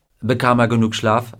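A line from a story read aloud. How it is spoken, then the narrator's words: Plain. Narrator (German): fragte Gardner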